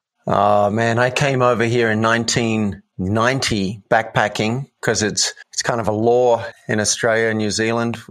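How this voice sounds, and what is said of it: Australian accent. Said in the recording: “I'm from Sydney, Australia ... you can tell from your accent”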